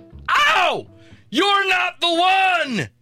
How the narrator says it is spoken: He yelled

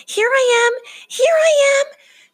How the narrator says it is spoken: Franklin shouted over and over

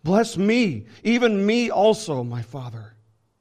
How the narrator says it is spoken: Esau cried out with an exceedingly great and bitter cry and said to his father

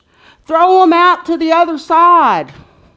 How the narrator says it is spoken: Jesus yelled from the beach

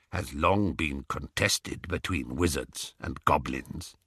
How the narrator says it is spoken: said the goblin quietly

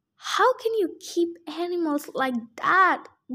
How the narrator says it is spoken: Grover cried

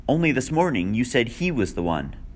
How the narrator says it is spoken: Vera cried

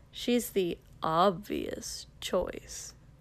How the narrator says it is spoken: Kosuke drawled

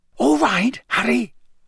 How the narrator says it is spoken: Bagman whispered

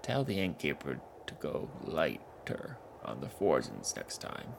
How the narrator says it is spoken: Gragas said

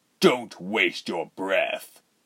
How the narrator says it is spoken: Rubens snapped

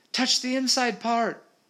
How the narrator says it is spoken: shouted Molly

